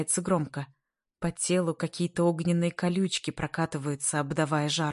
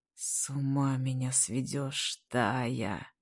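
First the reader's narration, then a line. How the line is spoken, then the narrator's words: Quiet, hoarse, pleasured. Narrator (Russian): Говорит тихо, хрипло, от каждого звука прикрывая глаза от накатившего наслаждения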